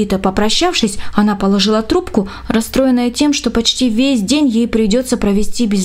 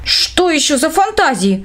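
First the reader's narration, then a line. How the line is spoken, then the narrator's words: Exclamation. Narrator (Russian): воскликнула Эля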